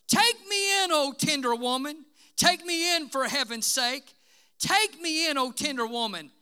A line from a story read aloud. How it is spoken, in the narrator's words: sighed the snake